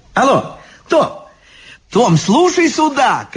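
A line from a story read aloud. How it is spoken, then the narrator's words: Shouting into phone. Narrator (Russian): кричала в трубку библиотекарша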